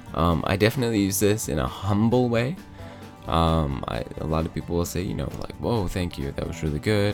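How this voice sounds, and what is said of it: Sick, rough-sounding voice. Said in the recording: “sorry for my voice again. Um, hopefully, the sick slash sexy voice”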